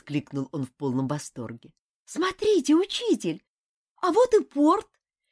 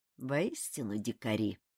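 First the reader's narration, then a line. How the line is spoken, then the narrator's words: Mutter. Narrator (Russian): пробормотал он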